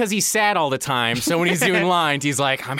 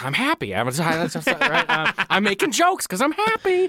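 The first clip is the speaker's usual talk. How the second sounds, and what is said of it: Imitates another person's voice, hyper. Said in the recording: “your impression of Paul Giamatti him on cocaine”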